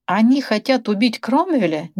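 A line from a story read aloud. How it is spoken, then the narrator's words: Incredulous exclamation. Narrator (Russian): недоверчиво воскликнул Брэдли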